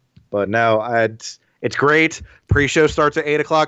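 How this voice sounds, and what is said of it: Usual voice. Nothing is said of it.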